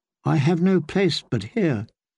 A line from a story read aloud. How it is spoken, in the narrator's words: Sansa thought miserably